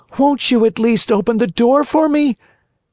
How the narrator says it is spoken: cried Pinocchio in a beseeching voice

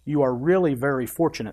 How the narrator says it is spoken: said the doctor

